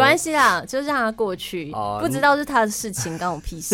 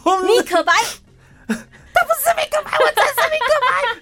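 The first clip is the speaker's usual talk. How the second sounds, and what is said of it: Impression of 米可白. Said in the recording (Chinese): “我学一下，学一下”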